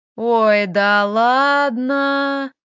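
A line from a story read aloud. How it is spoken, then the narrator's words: Sing-song drawl, sighing. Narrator (Russian): Протянул нараспев Леха и вздохнул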